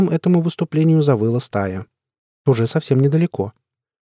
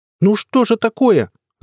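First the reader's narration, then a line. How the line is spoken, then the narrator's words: Yelling. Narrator (Russian): завопил Прыщ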